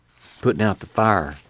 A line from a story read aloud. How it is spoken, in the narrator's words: Muley whispered